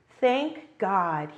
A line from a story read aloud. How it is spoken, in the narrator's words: replied